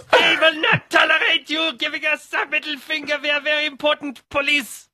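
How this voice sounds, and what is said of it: Bad put-on German accent. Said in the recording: “Was that a German accent? ... I've got a very bad German accent.”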